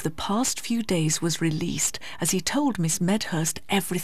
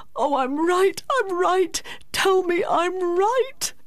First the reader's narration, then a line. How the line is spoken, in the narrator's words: he cried out as a child